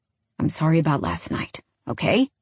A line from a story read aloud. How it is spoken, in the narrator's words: He mutters